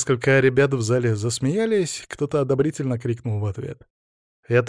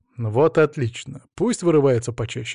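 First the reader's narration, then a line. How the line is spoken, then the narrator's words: Amused grunt. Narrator (Russian): хмыкнул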